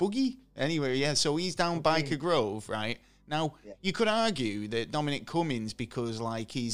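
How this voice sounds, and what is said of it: Usual voice. Nothing is said of it.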